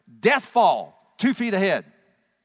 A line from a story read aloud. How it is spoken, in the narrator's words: the voice of his teammates who would shout back to him